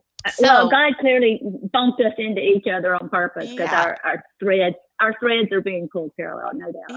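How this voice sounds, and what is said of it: Southern US accent. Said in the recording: “if you're wondering where Annie's from, it's definitely the South. It's Mississippi ... this is my fake Southern accent.”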